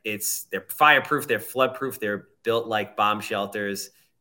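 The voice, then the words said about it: Thick Long Island accent. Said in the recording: “that nice thick Long Island accent ... Not thick enough, huh? My, my my coffee talk isn't as pronounced as uh, as others on Long Island. ... No, it's thick.”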